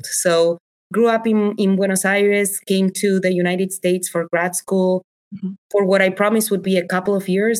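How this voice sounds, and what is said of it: Speaks English with a foreign accent. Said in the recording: “I'm the mom who speaks English with an accent”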